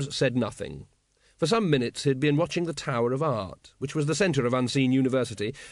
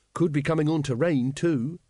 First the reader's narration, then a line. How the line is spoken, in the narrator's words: said Carrot